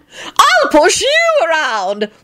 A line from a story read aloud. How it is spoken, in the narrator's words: Lady Fanshawe shrieked maniacally